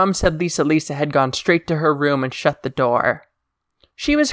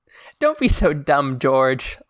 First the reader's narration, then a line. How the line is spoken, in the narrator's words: Lisa laughed